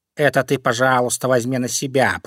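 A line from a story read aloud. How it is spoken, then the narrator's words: Grumbling cat. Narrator (Russian): проворчал кот Васька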